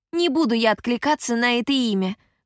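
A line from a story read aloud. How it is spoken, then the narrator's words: Shouting back. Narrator (Russian): крикнула в ответ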